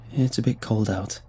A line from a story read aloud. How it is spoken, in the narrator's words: said flatly